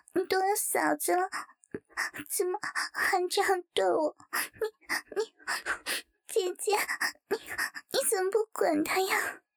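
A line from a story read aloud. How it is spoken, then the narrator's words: Pouting, near tears. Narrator (Chinese): 陈静猛然睁大眼睛，黑白分明的母中顿时涌出一股水气，撅着嘴好像快要哭出来一样说道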